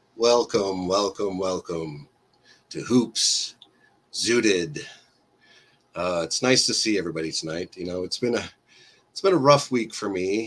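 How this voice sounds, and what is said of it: Sick, congested voice. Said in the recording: “I've been sick this week. I'm sure you can hear it in my voice. ... you're already congested”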